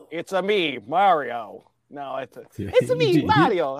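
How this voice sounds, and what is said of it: Put-on Italian accent. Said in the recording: “do an Italian impersonation”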